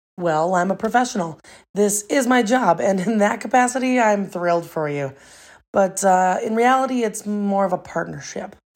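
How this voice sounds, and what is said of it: American accent. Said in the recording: “If I'm picking up on this accent right, you're not British, are you? ... I'm an American.”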